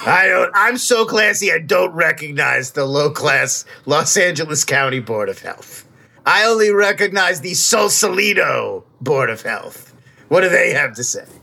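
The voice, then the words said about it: Character voice, New York accent. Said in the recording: “He has a New York accent, folks. ... an old dirt bag is always from, like, the Bronx”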